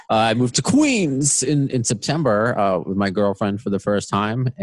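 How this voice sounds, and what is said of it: Long Island accent. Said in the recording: “I don't know if you can hear it. Long Island is my accent.”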